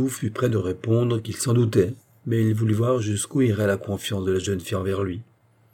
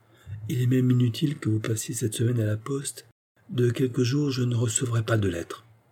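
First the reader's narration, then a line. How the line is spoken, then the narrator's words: Low voice. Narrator (French): elle ajouta à voix basse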